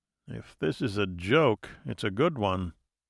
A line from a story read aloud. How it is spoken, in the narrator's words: he muttered